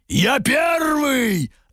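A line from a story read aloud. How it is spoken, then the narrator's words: Barked by several monstrous voices. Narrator (Russian): рявкнули три драконьи глотки и людоед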